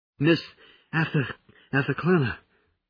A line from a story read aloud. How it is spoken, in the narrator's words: gasped